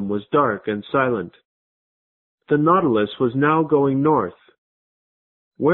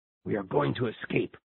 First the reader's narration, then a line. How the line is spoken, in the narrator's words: Ned Land whispering